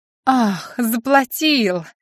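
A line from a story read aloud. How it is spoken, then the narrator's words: Hysterical laugh. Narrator (Russian): Татьяна истерично хохотнула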